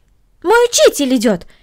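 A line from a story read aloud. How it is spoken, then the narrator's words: Exclaiming. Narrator (Russian): воскликнула Корнелли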